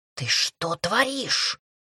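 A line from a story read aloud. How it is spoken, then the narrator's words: Hissed. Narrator (Russian): зашипел Кейлип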